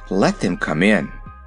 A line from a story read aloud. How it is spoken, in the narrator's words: said the king in a relieved tone of voice